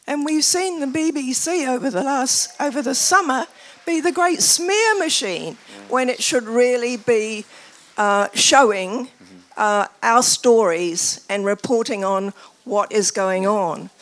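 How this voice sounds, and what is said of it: New Zealand accent. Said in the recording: “My accent is because I'm from New Zealand”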